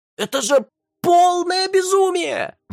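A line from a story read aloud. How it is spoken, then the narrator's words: Howling. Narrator (Russian): взвыл Вейдлер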